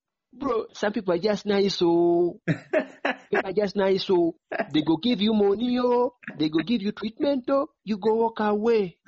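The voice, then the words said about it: Put-on Nigerian accent. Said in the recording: “I want to get this Nigerian accent of”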